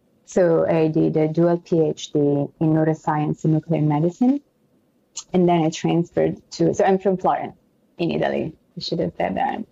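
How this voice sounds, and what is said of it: Italian and French accented English. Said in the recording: “Hence the beautiful accent. ... It's a combination of Italian and French because actually French is my second language. So I know my accent is a little weird.”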